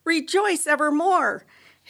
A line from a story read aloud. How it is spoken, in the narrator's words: shouts to the skies